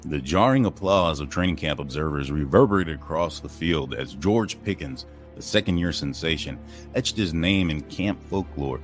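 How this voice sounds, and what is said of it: Dramatic sports film narrator voice. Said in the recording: “my best NFL Films impression”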